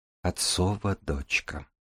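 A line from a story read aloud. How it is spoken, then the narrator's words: Female whisper. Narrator (Russian): прошептала она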